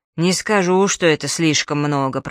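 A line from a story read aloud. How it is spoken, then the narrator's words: Grumbling forester. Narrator (Russian): проворчал лесничий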